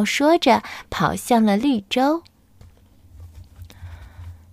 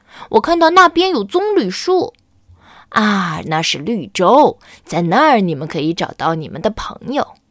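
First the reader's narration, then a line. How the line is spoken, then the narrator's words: Shouting. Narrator (Chinese): 阿果叫起来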